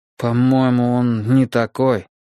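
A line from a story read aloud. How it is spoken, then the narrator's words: Uncertain. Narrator (Russian): неуверенно произнес я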